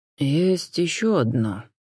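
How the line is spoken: Quiet, dropped remark. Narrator (Russian): негромко проронил Константин

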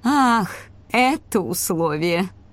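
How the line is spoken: Drawled, then laughing. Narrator (Russian): протянула Сагита и вдруг рассмеялась

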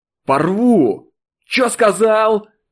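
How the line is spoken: Yelling. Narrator (Russian): заорал Колян

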